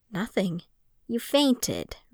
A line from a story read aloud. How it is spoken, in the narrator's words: Rune said, her voice tense